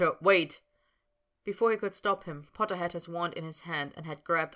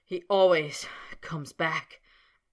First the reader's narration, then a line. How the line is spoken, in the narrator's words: panted Snape, grinding his teeth together